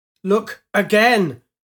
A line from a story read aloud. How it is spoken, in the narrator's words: Piri bellowed